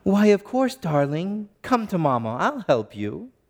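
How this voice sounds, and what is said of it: Child's voice with slight British accent. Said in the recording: “in perfect cadence and perfect tone and even a little hint of a British accent”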